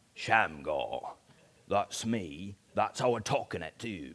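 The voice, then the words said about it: Deep put-on Cockney accent. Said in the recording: “it's sort of a deep Cockney accent”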